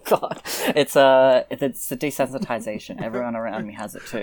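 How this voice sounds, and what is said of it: Australian accent. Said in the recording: “I'm from Australia, obviously, by this incredible accent ... It is a good accent ... an accent that sexy”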